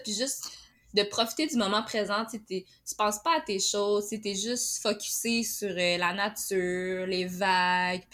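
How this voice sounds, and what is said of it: Côte-Nord Quebec French accent. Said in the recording (French): “ton bel accent de la Côte-Nord”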